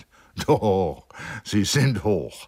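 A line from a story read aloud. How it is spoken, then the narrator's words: Plain. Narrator (German): antwortete Joachim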